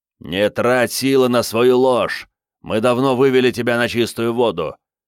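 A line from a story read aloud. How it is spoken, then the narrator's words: Barked in ear, butcher. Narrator (Russian): рявкнул мясник ему в ухо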